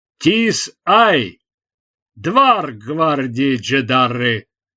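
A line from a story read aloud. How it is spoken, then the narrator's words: Booming voice from outside. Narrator (Russian): прогремел голос снаружи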